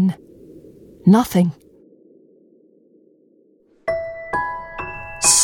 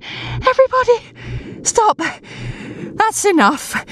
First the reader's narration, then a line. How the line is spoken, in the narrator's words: Pickles panting